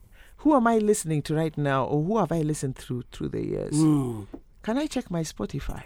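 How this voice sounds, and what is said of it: Radio-quality speaking voice. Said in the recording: “doesn't she have a radio voice? ... Incredible voice.”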